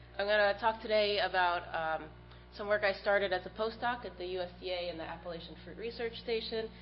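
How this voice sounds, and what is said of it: Stuffy voice from a cold. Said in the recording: “I have a bit of a cold, so forgive me if I'm stuffy and start coughing.”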